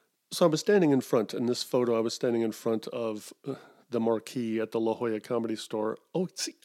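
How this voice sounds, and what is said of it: Usual voice. Nothing is said of it.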